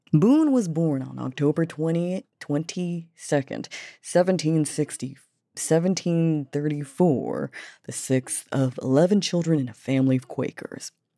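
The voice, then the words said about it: Southern American accent. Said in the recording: “Why do I have a southern accent?”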